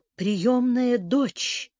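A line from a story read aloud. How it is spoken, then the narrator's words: Barely audible. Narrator (Russian): Девушка чуть слышно произнесла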